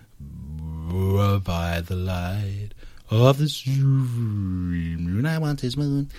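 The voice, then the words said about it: Creepy warped old-record singing. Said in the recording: “my best impression now of the creepiest Edison Vitrola ... very bizarre, very creepy and very strange”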